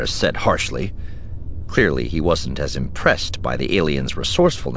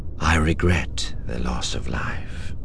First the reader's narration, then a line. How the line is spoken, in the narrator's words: Thrawn said gravely